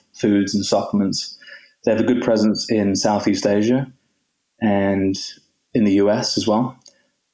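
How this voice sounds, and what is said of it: English accent. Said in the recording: “we can hear the English accent, obviously”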